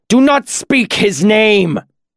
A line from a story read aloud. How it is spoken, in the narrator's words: the justice screamed, his face a livid red